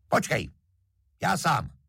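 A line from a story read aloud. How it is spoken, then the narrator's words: Shouted. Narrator (Czech): starosta křikne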